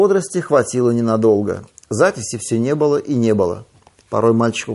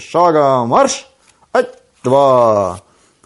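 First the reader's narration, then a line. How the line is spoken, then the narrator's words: Chuckling, brisk self-command. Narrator (Russian): Хохотнул Васютка и бодро скомандовал себе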